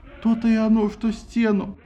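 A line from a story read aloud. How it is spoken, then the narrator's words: Groaning. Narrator (Russian): простонал Посейдон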